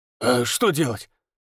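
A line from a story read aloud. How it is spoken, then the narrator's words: Grunting. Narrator (Russian): хмыкнул Федор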